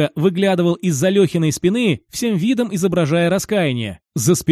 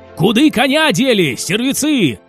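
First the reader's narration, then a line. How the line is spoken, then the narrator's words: Barking cossack. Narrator (Russian): рявкнул казак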